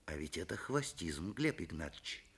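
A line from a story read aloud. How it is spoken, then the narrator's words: Gentle. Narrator (Russian): мягко сказал Светличный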